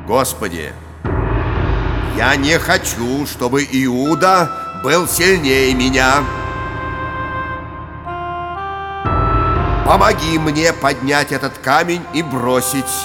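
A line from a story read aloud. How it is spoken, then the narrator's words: Loud flushed speech. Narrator (Russian): Весь красный, Петр громко сказал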